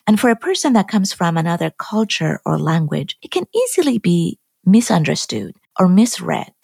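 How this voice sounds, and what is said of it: Iranian-accented English. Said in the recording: “As you have noticed from my accent, I'm not from the US. I was born and raised in Iran.”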